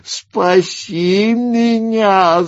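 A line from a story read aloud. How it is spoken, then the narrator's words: Whimpering plea. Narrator (Russian): заскулил Ринс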